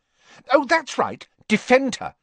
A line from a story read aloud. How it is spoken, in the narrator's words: snapped Ginny